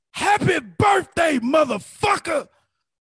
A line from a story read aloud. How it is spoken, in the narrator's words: he's yelling